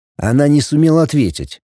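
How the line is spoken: Sighed. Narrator (Russian): вздохнул пятый

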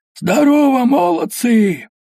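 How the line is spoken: Hoarse shouting. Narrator (Russian): сиплым горлом кричал

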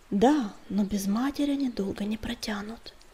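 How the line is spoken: Sighing. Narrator (Russian): вздохнул Огнегриф

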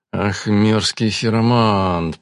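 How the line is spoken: Grumbling through teeth. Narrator (Russian): проворчал он сквозь зубы

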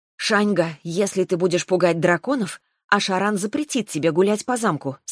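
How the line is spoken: Plain. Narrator (Russian): сказала я

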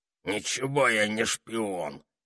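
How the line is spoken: Hoarse objecting toad. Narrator (Russian): хриплым голосом возразила жаба

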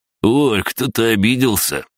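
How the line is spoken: Mocking drawl. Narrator (Russian): насмешливо протянул Олег

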